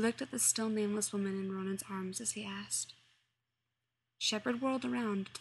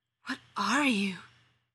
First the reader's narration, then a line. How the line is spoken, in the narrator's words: he finally stopped against a tree trunk and wheezed